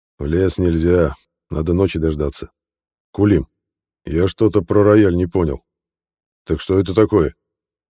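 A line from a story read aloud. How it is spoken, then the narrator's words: Sighing, then speaking. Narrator (Russian): Кани Корсо вздохнул и заговорил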